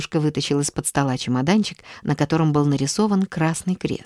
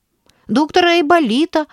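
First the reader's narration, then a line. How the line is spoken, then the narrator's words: Shouted. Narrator (Russian): крикнул Валерка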